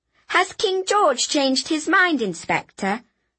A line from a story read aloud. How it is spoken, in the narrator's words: I asked haughtily